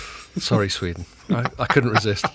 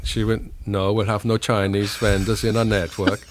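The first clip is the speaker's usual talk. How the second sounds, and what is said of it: Put-on Swedish accent, somewhat German. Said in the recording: “How's that as a Swedish accent? ... It's pretty good. I like it. ... was this more German? ... sort of Central European type of thing.”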